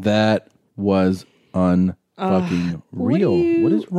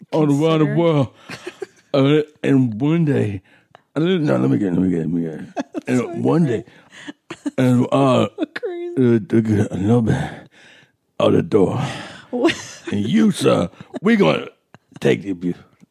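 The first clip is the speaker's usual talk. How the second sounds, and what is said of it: Imitates another person's voice. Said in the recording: “That's my impression. ... That was fantastic. That was really good.”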